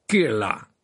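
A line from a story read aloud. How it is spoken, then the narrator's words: Suspicious tone. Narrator (French): répéta Karkarov d'un ton soupçonneux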